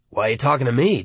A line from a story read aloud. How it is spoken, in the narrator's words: Darnell asks him, wheezing and coughing through a cloud of cigar smoke